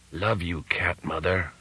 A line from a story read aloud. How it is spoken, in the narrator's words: whispered the Panther Modern's link man